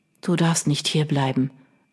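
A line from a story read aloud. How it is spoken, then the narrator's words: Weak male voice. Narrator (German): erwiderte er mit kraftloser Stimme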